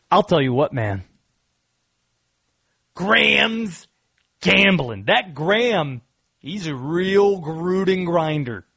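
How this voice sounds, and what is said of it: Jon Gruden impression. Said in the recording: “I'll do this tease in the Gruden voice.”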